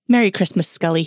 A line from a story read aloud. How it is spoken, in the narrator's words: chuckled